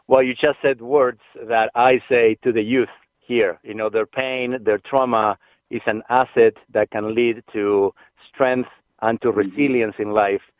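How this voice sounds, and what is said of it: Speaks with a noticeable accent. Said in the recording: “my accent ... I feel a bit sometimes insecure about my accent”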